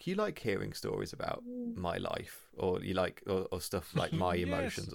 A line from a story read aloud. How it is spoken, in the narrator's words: asks really kind of timidly, like